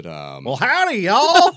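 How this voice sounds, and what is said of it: Cartoonish put-on Texas accent. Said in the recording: “I can do a pretty good cartoon sheriff Texas accent, but I mean, it's not. I wouldn't call it authentic by any stretch.”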